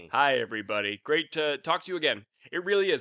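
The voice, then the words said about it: Put-on fake voice. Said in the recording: “I said that in like a fake voice”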